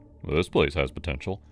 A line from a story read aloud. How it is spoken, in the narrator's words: he grunted